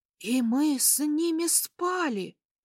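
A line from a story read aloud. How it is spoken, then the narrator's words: Horrified whisper. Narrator (Russian): прошептала ужаснувшаяся мадам Полли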